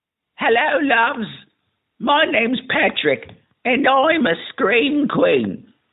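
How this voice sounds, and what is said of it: Exaggerated mock British accent. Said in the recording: “my completely 100% flawless British accent that's not a mockery of their culture or history at all”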